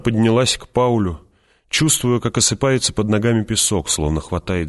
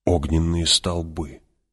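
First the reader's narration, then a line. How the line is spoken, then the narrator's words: Whispered. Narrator (Russian): прошептал Пауль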